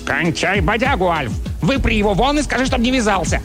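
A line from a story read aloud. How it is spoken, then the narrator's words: Barking. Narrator (Russian): Чарли рявкнул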